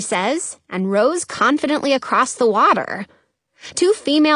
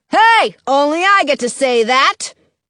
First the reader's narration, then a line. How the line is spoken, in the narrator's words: General Glover shouts